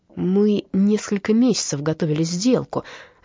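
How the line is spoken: Angry hiss. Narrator (Russian): злобно прошипел Эммануэль

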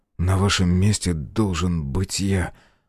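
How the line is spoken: Trembling voice. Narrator (Russian): дрогнувшим голосом сказал Белый

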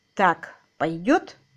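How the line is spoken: Plain question. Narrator (Russian): спросил он

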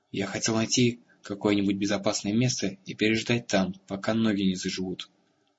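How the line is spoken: Plain. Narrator (Russian): сказал

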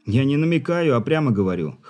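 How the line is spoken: Snorting. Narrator (Russian): хмыкнул Руль

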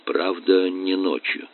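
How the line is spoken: Quiet addition. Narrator (Russian): тихо добавил

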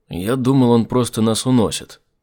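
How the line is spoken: Grumbled. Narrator (Russian): проворчал Айзек

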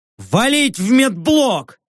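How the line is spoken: Barked. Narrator (Russian): рявкнул я

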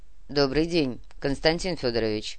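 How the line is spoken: Reserved greeting. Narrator (Russian): сдержанно кивнул Зорич

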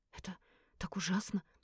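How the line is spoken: Whisper. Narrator (Russian): прошептала

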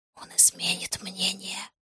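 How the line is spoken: Whispered. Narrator (Russian): прошептала мне Нура

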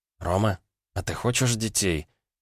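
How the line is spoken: Quiet, thoughtful question. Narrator (Russian): тихо и задумчиво спросила Ванда

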